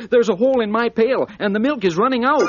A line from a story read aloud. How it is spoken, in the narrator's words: Susie Littletail cried